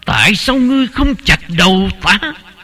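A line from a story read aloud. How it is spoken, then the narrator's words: Angry shout. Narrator (Vietnamese): Tổ sư Đạo Tính ... tức giận la lên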